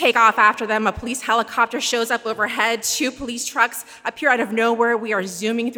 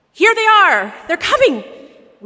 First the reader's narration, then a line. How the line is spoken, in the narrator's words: the officer's radio crackles to life and he shouts out